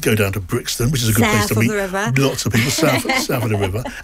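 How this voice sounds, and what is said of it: Exaggerated South London accent. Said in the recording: “That's a terrible South London accent”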